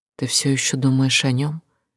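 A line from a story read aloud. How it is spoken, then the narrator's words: Quiet question. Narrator (Russian): Она тихо спросила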